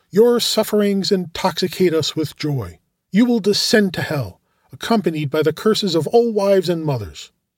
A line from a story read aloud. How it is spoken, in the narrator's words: one of them exclaimed